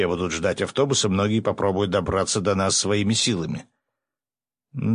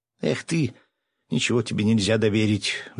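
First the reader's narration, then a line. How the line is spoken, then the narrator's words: Sighing. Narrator (Russian): вздохнула Аня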